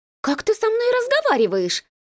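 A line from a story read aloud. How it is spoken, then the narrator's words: Shrill squeal. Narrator (Russian): взвизгнула она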